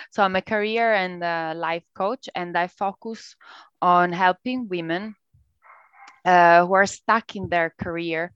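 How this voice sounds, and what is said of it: Italian accent. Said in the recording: “Italian. But you can tell from my accent”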